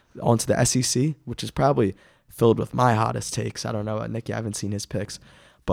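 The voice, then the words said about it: Raspy, under-the-weather voice. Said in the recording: “hear me coughing a little bit under the weather, as you can probably tell by my raspy voice”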